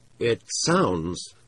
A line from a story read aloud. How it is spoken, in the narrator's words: Sheldon said slowly